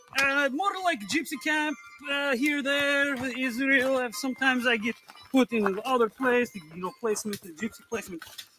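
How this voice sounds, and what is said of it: Speaks with a foreign accent. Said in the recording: “You sound like you have an accent.”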